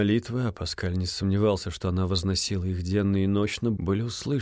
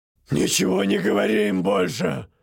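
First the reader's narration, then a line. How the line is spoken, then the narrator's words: Barked. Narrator (Russian): рявкнул мясник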